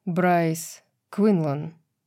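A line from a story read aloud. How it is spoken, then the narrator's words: Impassive tone. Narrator (Russian): бесстрастным тоном произнес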